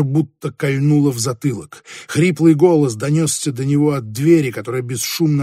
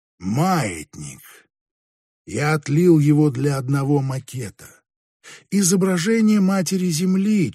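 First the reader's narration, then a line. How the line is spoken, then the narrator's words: Barely audible. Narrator (Russian): чуть слышно продолжал Каан де Берг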